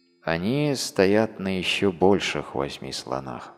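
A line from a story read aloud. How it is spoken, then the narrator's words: Plain. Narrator (Russian): ответил тот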